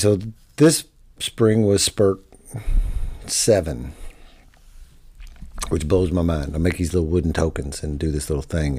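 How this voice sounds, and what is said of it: Hoarse, worn-out voice. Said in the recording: “my voice is blown out ... my voice is shot tonight”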